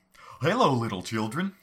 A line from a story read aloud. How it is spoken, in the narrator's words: I shouted as glee